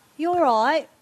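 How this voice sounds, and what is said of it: Weak put-on Australian accent. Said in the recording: “I don't do a very good Australian accent”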